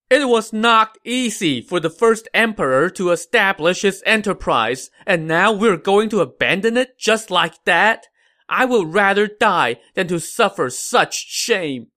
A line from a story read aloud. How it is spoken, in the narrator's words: Liu Chen now wept bitterly and shouted